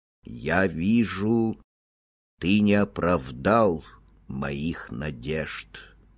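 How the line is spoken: Sad. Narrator (Russian): печально сказал

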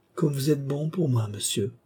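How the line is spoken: Trembling voice. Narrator (French): elle dit d'une voix tremblante

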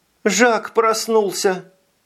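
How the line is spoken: Sobbing. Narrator (Russian): всхлипнула

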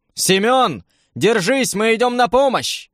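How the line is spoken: Shouted. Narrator (Russian): крикнул

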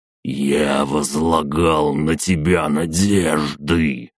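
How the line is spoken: Hiss. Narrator (Russian): прошипел он

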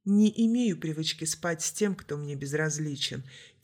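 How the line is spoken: Quiet. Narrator (Russian): тихо сказала конфетка

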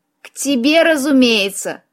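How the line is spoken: Mocking snort. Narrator (Russian): насмешливо фыркнул единорог

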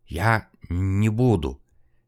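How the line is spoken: Trembling stammering whisper. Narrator (Russian): дрожащим голосом, заикаясь, прошептал Подгорнов

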